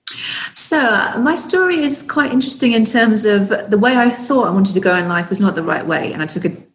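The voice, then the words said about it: English accent. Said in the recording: “Originally from the UK ... with your English accent”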